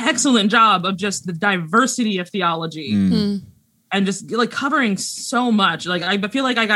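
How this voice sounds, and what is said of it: Usual voice. Nothing is said of it.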